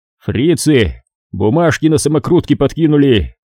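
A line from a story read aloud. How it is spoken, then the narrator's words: Loud deliberate laughter. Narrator (Russian): Засмеялся слишком громко, чтобы услышали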